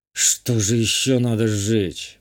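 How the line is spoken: Muttering to himself. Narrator (Russian): буркнул сам себе

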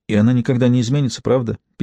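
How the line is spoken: Sad. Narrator (Russian): печально спросила Эмили

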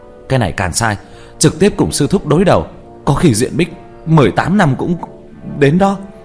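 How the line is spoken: Yelling while moving. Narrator (Vietnamese): Tứ Bảo, trong miệng còn la hét

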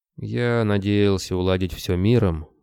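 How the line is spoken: Sighing. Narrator (Russian): Григорий вздохнул

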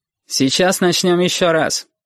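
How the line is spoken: Cold promise. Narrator (Russian): холодно пообещал Портнов

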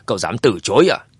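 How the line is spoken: Angry. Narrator (Vietnamese): tức giận nói

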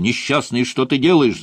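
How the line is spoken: Shouting. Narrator (Russian): закричал я ему

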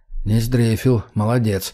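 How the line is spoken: Mutter. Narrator (Russian): пробормотал я

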